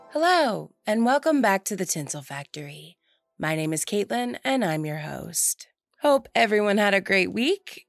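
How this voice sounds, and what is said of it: Husky, raspy voice. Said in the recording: “I have been sick all week ... just a plain Jane, nice and boring head cold ... as you can tell by my voice, still recovering. So now I've got like the Phoebe Buffay from Friends sexy voice”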